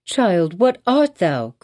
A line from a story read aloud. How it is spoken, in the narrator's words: cried the mother